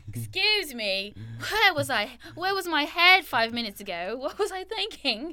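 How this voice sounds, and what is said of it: Put-on British accent. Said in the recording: “you got me away from my British accent. I have to bring it back.”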